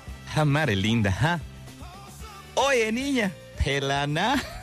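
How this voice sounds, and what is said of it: Put-on Yucatecan Spanish accent. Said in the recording (Spanish): “con acento yucateco”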